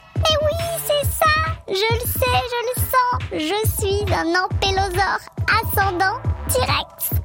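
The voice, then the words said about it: Southern French accent. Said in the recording (French): “Tu as été pondu dans le sud de la France. Ça vient peut-être de là, ton petit accent.”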